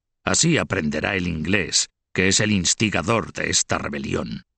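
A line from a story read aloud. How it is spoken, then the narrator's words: Growling. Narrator (Spanish): añadió con una especie de gruñido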